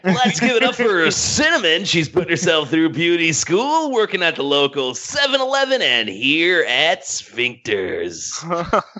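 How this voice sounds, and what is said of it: Deep announcer-style radio DJ voice. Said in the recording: “you got a great radio voice... Stripper DJ voice”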